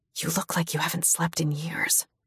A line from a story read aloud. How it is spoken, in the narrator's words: I whisper